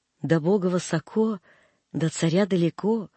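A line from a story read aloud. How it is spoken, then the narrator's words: Gentle affectionate voice. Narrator (Russian): ласково говорила мачка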